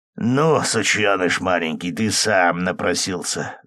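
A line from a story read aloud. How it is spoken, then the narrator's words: Vicious hiss. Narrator (Russian): злобно прошипел второй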